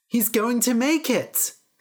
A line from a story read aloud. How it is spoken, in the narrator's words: the people cried